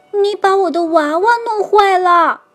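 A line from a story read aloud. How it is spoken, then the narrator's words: Screaming. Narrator (Chinese): 娜娜尖叫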